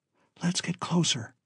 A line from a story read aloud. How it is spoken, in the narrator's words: Alan whispered